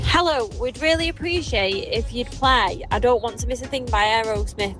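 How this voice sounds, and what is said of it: Regional accent. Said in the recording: “I couldn't be more obsessed with your accent if I tried”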